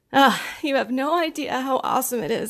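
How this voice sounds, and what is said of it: Emotional, near-tearful voice. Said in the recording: “I'm a crier and I'm getting emotional now”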